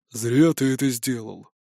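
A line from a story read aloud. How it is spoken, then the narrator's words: Quiet, private. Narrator (Russian): Бродди и тихо, чтобы не слышали остальные, произнес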